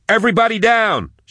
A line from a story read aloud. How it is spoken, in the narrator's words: she yelled